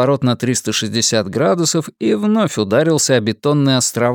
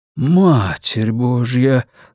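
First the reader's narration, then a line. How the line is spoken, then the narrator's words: Breathless exclamation. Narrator (Russian): выдохнул Томми Уэнамейкер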